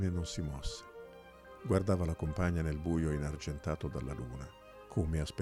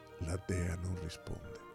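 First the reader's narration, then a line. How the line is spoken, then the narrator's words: Said in a low voice. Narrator (Italian): disse a voce bassa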